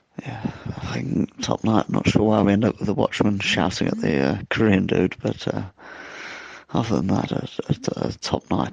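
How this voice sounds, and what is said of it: Rough, worn-sounding voice. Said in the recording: “As you can tell from my voice, we had a lot of drink last night.”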